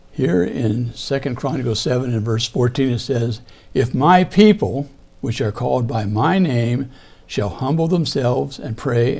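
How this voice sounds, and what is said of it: Hoarse, strained voice. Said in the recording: “Seems it sounds like I'm losing my voice.”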